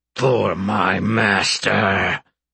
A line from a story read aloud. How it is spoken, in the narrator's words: Tiny rumbled